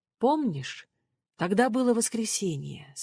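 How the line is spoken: Plain. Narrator (Russian): сказал он

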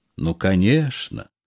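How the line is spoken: Gentle reply. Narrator (Russian): ласково отвечал Берегов

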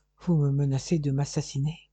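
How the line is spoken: Murmured. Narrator (French): murmura-t-il

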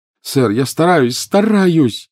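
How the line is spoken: Desperate cry. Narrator (Russian): отчаянно вскрикнул Гарри

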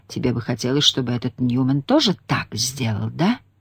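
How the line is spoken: Muttered. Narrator (Russian): пробормотать

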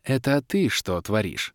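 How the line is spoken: Very soft purr. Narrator (Russian): Мягко-мягко промурлыкала черная баронесса

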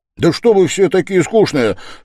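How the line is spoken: Sudden cry. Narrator (Russian): вскрикнул он вдруг совсем неожиданно

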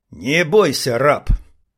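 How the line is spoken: Through clenched teeth. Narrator (Russian): бросила она ему сквозь зубы

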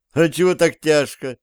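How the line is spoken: Laughing. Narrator (Russian): рассмеялся Зверев

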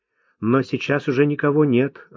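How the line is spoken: Timid young man interjecting. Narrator (Russian): робко вмешался юноша

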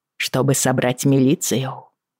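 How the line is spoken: Sighing. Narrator (Russian): Джейми вздохнул

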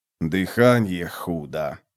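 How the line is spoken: Hissed. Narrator (Russian): прошипел караб

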